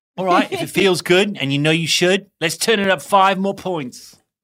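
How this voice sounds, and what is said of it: Weak put-on British accent. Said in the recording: “Not doing the British accent justice. My girlfriend would be cringing”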